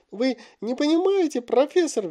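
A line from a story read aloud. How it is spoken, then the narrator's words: Shrieking. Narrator (Russian): визжал Малфой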